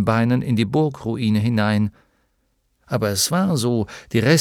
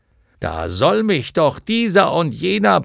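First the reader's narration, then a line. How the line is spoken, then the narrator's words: Blustering outburst. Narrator (German): polterte Hykrion los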